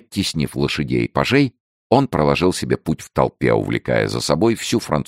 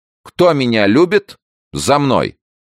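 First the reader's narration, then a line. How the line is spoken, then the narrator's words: Loud. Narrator (Russian): Дегиш громко сказал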